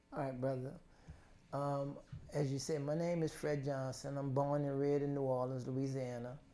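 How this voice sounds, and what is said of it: Noticeable regional accent. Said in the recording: “You hear that accent”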